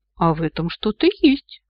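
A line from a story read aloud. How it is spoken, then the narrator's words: Approving grunt. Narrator (Russian): одобрительно хмыкнул Ахура Мариэль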